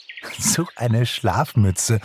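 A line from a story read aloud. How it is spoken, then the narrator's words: Giggling. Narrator (German): kicherte Pixie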